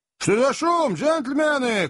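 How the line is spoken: Shouting. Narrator (Russian): крикнул Сэм

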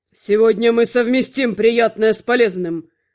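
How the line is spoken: Growl. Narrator (Russian): рыкнул

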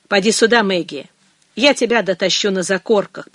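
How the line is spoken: Grumbling. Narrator (Russian): проворчал он

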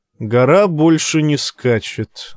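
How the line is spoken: Gloomy, curt. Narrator (Russian): мрачно проронил принц

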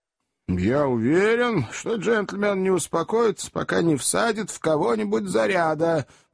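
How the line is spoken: Grumbling tall man. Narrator (Russian): проворчал долговязый

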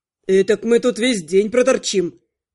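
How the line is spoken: Gloomy agreement. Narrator (Russian): мрачно подтвердил стоящий неподалеку парень

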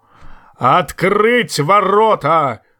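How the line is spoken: Thunderous roar. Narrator (Russian): взревел громовым голосом Большой Лидль

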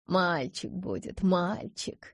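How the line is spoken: Tender cooing. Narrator (Russian): ворковала Софья Амирамовна

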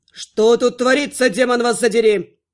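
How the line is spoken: Growling. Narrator (Russian): прорычал Влас

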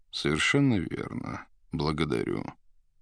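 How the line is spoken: Slow heavy bass. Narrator (Russian): медленно говорил маг тяжелым басом

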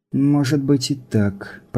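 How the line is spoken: Mutter. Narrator (Russian): пробормотала Илли

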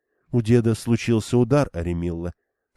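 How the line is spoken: Young woman explaining calmly. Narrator (Russian): спокойно пояснила молодая женщина

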